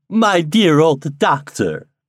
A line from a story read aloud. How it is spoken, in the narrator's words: cried she